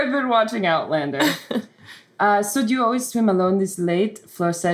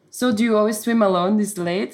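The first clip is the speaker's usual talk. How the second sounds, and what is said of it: Put-on French accent. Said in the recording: “Do you guys like my accent? ... it's really hard to switch between narration, Scottish, and French. But you're doing a good ... job. ... Impressive. ... That's a good accent. ... that's a great accent.”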